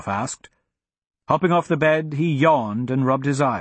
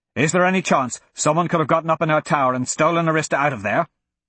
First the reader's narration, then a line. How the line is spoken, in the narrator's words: Braga asked urgently